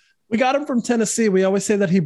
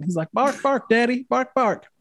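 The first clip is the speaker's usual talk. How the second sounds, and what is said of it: Put-on Southern accent. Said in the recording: “he barks with a southern accent”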